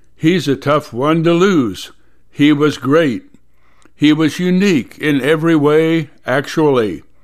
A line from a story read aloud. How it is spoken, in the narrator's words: said